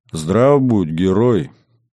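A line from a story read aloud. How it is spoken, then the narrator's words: Beautiful booming greeting. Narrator (Russian): Красивым, зычным голосом поприветствовала она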